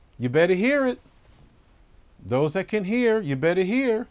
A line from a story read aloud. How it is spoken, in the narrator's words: he yells out